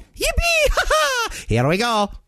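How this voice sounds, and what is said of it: Mario voice impression. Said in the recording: “You gotta do the Mario voice, though.”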